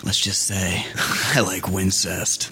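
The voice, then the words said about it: Whispered funny line. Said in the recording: “whisper voice”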